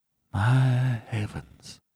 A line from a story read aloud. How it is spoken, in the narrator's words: he murmured in an ecstasy of horror